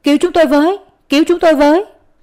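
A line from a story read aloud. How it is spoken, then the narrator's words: Crying out. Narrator (Vietnamese): Mặt quỷ la lên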